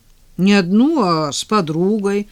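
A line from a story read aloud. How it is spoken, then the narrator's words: Offended objection. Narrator (Russian): обиженно возразил Денис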